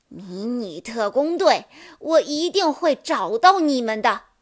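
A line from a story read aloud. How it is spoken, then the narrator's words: Frantic furious queen, teeth gritted. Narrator (Chinese): 女王被焦急和愤怒冲昏了头脑，咬牙切齿地说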